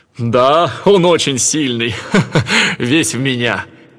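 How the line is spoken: Laughing, proud. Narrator (Russian): Зевс засмеялся и сказал

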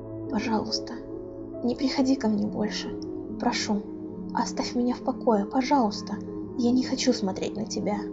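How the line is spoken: Whisper after loud exhale. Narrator (Russian): громко выдохнув, прошептал

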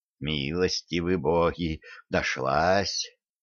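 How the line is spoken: Relieved sigh, male host. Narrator (Russian): с облегчением вздохнул хозяин

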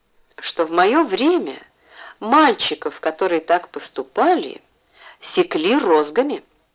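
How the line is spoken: Gentle, affectionate. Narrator (Russian): ласково сказал Краузе

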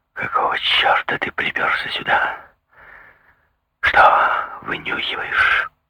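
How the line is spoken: Strained, forced out. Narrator (Russian): С трудом взяв себя в руки выдавил

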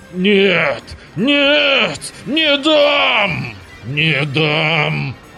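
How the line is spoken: Growling while struggling. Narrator (Russian): Рычал Рататый, вырываясь

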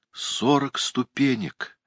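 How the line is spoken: Groan. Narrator (Russian): простонал он

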